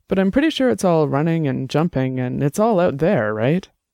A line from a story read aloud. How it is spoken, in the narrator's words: Annabelle laughed